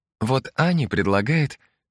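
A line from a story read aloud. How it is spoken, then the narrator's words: Uncertain, hesitant. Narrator (Russian): неуверенно начала Маргарита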